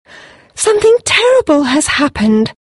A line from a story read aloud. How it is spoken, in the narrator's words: she exclaimed